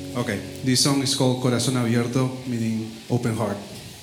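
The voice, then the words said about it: Non-native English accent. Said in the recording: “it's an accent, it's because I'm not from here”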